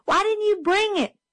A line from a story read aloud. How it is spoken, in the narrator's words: Jim yelled